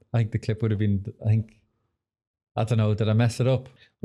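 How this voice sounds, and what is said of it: Irish accent, monotone relaxed voice. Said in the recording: “you've got an amazing accent? ... Irish accent. ... Irish accent's banging ... But I've quite a monotone voice. ... Nice and relaxing”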